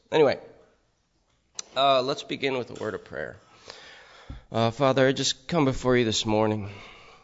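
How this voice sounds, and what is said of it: Hoarse voice. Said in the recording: “you have to listen to my hoarse voice”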